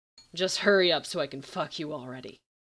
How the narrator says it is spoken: Gabriel growled

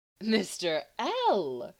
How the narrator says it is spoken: her voice pretended shock, but her amusement shone through clearly

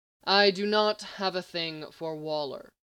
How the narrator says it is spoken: Lex responded stiffly

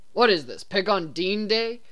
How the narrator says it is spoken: Dean grumbled

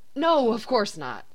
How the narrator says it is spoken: Sam hastily agreed with Cass

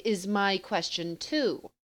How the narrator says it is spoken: she said dryly

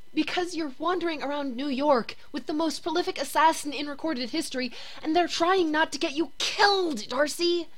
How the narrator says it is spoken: Jane the Voice hisses shrilly

